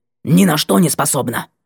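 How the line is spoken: Harsh croak. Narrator (Russian): каркнула она резко

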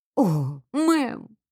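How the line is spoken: Breathy exhale. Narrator (Russian): выдохнула Сиси

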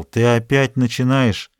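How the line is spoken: Grumbling. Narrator (Russian): Он проворчал

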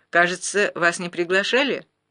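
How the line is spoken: Loud. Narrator (Russian): Гуров громко сказал

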